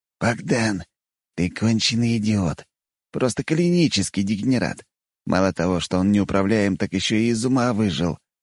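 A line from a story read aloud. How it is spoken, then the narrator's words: Indignant hiss. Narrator (Russian): прошипел Даниил, жалея, что парализованные мышцы лица не способны передать всего его негодования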